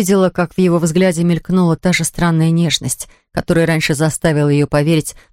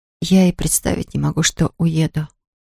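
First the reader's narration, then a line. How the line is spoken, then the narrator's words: Whisper. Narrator (Russian): прошептала она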